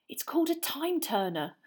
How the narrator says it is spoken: Hermione whispered

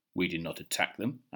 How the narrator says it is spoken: answered Thorin

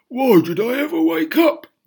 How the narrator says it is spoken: he cried

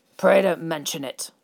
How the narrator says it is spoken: he grunted

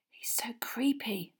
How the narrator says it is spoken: Parvati whispered

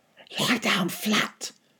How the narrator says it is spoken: my father whispered

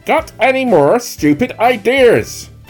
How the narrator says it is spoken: Bunce shouted back

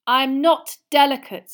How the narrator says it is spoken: said Harry crossly

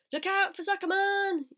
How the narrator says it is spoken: yelled the gander

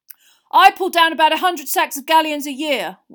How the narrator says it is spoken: one of them shouted

